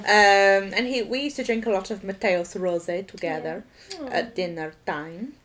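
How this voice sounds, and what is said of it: Generic Mediterranean European accent. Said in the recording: “Generic European accent. ... Generic European accent. Mediterranean, to be slightly more precise.”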